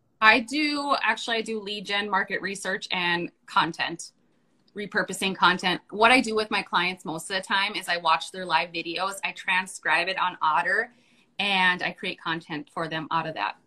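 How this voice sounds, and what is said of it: North Dakota accent. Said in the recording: “you have an accent ... North Dakota”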